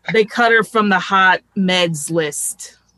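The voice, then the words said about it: Put-on New York accent. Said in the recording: “I guess I'll try some sort of weird New York thing.”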